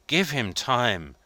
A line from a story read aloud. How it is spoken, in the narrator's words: pleaded Maitre Voigt